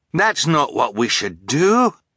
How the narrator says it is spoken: Fiona cried

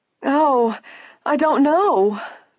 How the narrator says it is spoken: the woebegone clerk wailed

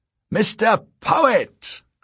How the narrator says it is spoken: cried Z

